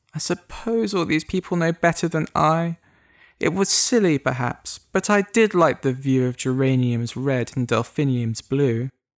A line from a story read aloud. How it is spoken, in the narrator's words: he said with a sigh